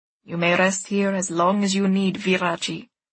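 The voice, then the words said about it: Strange accent with long rolled R's. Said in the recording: “His accent is strange. His R's roll an unusually long time.”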